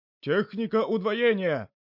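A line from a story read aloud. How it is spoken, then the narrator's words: Big man shouting. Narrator (Russian): снова крикнул здоровяк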